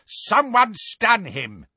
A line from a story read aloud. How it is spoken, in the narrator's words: roared Neville